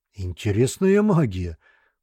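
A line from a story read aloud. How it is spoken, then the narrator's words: Surprised exclamation. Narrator (Russian): удивленно воскликнул Зеленый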